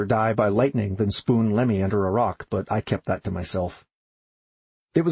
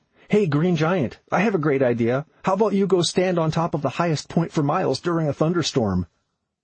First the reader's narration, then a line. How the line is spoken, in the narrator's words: Megan yelled